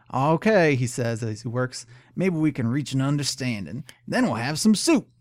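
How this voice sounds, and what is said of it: Canadian hillbilly character voice. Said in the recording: “I love your Canadian accent. ... It's, it's not a Canadian. It's like a Canadian hillbilly voice.”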